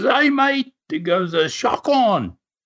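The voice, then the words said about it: Imitated Australian accent. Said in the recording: “I couldn't understand the Aussies for a while there. It takes a while to get used to that, that accent.”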